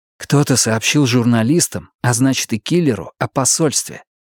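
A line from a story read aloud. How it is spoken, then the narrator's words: Young man's whisper. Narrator (Russian): прошептал молодой полицейский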